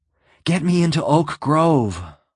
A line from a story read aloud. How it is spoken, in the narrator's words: Lois gasped